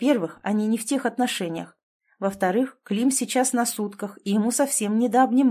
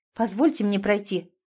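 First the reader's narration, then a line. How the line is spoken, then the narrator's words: Cold. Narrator (Russian): холодно сказала Саша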